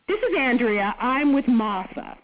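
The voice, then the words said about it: Bad put-on British accent. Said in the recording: “I'm going to have to do my British accent here. It's very bad.”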